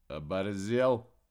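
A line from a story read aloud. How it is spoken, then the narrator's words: Calm question, man. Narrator (Russian): спокойно поинтересовался чернокурточник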